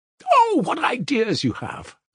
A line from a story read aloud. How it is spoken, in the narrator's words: Lise shrieked in delight